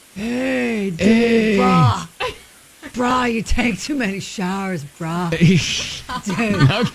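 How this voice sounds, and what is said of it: Put-on Florida stoner surfer accent. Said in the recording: “We need to master a Florida accent. ... It would be like a stoner surfer vibe.”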